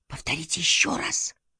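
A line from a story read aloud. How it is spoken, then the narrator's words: Whisper. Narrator (Russian): прошептал он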